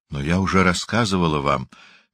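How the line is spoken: Soft. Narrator (Russian): мягко сказала

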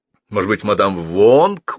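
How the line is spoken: Smirking. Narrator (Russian): усмехнулся Аллигейтер

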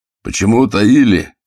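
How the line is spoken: Shouting bald man. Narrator (Russian): кричал лысый

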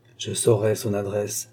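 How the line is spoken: Murmured. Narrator (French): murmura-t-il

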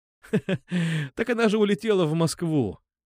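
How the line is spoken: Laughing. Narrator (Russian): засмеялся я

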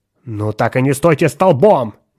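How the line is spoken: Impatient shout. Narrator (Russian): нетерпеливо крикнул Теремон

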